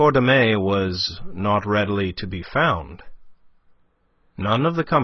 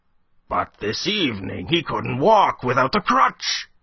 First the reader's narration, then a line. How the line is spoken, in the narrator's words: he exclaimed